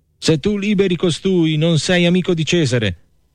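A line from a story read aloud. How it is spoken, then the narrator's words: Crowd shouting. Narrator (Italian): gridava il popolo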